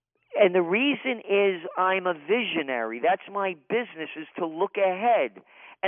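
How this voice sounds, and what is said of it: Impassioned, upset delivery. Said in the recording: “you can hear it in my voice, my passion ... have never heard you more, I'm not going to use the word angry, but more upset”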